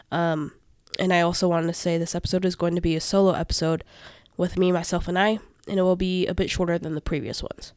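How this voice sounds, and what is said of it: Congested, stuffy sick-sounding voice. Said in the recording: “apologize for my voice. I'm currently sick and congested in my head and nose, so I might sound a bit different.”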